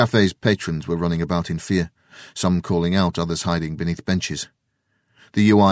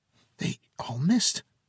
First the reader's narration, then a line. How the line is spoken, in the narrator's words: the boy whispered with amazement